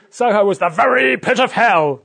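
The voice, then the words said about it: Weak attempt at Scottish accent. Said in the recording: “Not a Scottish accent, I know.”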